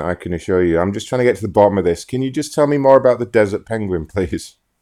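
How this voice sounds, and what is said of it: Convincing put-on accent. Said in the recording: “I don't know if your accent is real or not. ... It sounds good. It's very good impersonation-ish.”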